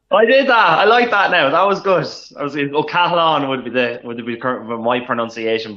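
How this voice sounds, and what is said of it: Irish Dundalk accent. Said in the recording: “don't mind the Dundalk accent”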